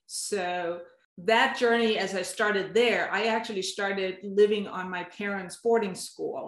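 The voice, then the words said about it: Danish accent. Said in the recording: “I have an accent, and that's because I've been born and raised in Denmark.”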